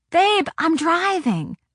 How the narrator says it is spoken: I shouted

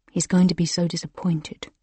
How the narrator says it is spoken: Josh mutters

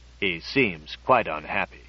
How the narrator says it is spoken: said gravely

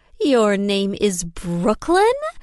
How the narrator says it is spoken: she exclaimed, her voice artificially interested

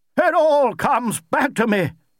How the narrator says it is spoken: cried Lord Emsworth

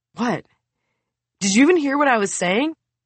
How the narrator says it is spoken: Amit yawns

